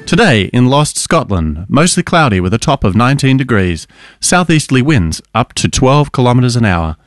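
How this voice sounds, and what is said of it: Imitates a newsreader's voice. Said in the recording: “That was a great impression of Ben. ... Shout out to Ben, our newsreader.”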